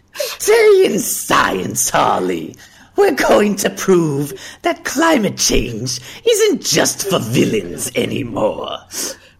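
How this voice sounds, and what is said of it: Creepy Joker-style villain voice. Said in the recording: “And I could do the Joker ... Oh, that was creepy.”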